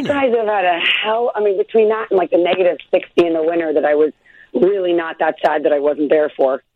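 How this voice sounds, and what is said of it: Hoarse voice. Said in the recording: “I'm a little hoarse today because it's, like, shockingly, like, a little Chicago cold in Los Angeles.”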